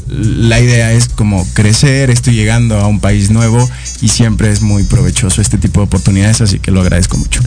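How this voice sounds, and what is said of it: Foreign Spanish accent, slightly Mexicanized. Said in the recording (Spanish): “sí te noto el acento, pero ya lo tienes un poquito más eh, mexicanizado”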